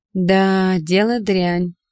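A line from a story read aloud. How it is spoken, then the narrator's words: Drawling. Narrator (Russian): протянул Чижов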